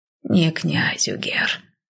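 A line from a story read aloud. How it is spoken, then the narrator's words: Quiet breathy. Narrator (Russian): тихо выдохнула няня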